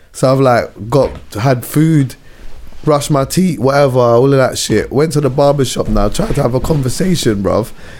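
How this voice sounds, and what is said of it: Hoarse, failing voice. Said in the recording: “I'm losing my voice, man ... my voice is like this”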